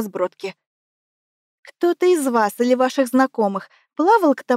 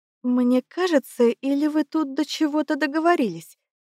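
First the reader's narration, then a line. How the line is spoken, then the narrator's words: Uncertain mumble. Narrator (Russian): Неуверенно пробормотала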